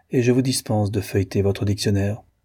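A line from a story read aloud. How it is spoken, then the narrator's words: Cold. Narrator (French): dit le colonel froidement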